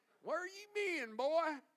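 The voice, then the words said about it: Put-on Southern accent. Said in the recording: “I like to put a little southern accent in there.”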